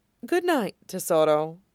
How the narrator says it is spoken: Zevran murmurs

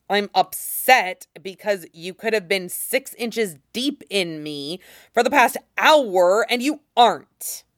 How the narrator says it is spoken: he snaps

